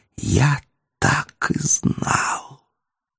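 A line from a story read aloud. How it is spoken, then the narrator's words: Hiss. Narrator (Russian): не прошептал, а прошипел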